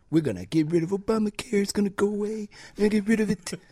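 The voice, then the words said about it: Imitates another person's voice. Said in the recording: “That's a terrible Trump impression.”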